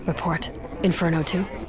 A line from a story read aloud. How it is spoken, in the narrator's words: said quietly